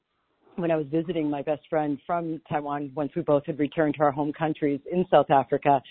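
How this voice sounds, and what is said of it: South African accent. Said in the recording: “this is a South African accent”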